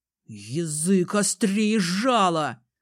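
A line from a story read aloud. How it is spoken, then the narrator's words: Angry, through gritted teeth. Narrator (Russian): Злобно цедит сквозь зубы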